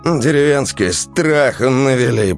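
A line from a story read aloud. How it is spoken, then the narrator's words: Grumbling. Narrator (Russian): проворчал Андрей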